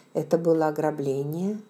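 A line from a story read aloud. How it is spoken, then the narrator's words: Gentle question. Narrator (Russian): мягко спросил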